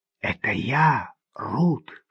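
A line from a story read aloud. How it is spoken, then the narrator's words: Whisper. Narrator (Russian): шепнул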